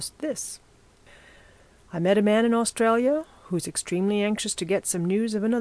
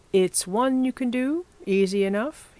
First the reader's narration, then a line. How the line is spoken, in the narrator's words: he said